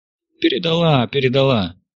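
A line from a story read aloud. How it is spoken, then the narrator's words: Pleased chuckle. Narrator (Russian): Яков довольно хохотнул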